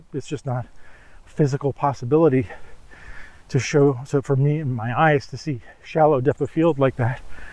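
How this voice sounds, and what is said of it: Out of breath, breathy speech. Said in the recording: “Sorry, I'm out of breath a little bit because I'm climbing hills here”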